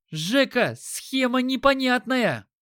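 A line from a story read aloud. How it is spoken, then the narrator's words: Yelling. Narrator (Russian): заорал Дима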